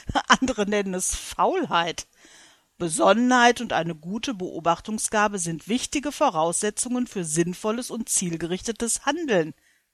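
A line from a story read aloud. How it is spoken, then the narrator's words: Bursting into laughter. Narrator (German): lachte Adam auf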